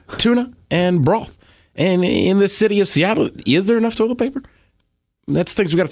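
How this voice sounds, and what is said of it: Barack Obama impression. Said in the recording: “Do a celebrity impression ... Obama”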